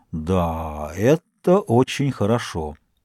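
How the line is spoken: Solemn announcement. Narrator (Russian): объявил торжественно

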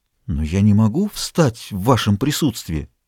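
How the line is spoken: Whispered. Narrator (Russian): губы прошептали

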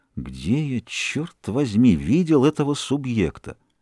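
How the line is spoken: Muttered under breath. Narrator (Russian): повторяя вполголоса

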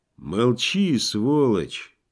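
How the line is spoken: Lazy reply. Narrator (Russian): лениво ответил на это Кай Юлий

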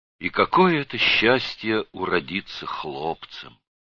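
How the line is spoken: Sighing. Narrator (Russian): она вздохнула и сказала

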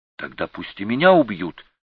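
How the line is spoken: Exclaiming. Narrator (Russian): воскликнула Егенка

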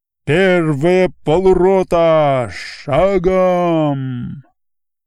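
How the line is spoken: Deep muffled distant command. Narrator (Russian): Глухо доносясь сквозь плотные ряды, низко стелясь по самой земле, раздалась впереди густая команда Осадчего

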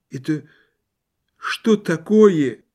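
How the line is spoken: Dejected old man's voice. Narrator (Russian): спросил старик упавшим голосом

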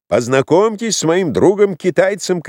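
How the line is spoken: Shouting. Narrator (Russian): кричал Егор

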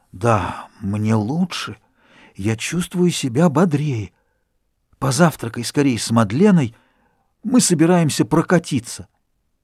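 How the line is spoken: Whisper. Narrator (Russian): Форестье прошептал

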